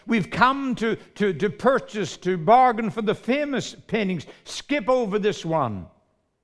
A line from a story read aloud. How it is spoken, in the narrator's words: a voice in the back of the room shouted